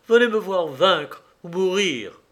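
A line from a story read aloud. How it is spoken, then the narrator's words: Exclaimed. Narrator (French): s'écria alors Pierrot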